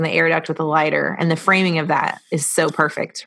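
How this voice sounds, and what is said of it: Usual voice. Nothing is said of it.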